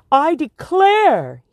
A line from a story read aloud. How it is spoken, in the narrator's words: exclaimed